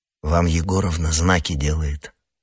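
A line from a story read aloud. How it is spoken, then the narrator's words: Whispering. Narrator (Russian): шепнул Юра Александру Александровичу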